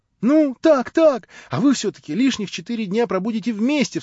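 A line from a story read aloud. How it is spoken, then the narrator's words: Delighted exclamation. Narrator (Russian): вскрикнула восхищенная Катя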